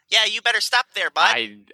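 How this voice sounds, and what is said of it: Thick put-on Midwestern accent. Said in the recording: “Thickest Midwestern accent you can imagine.”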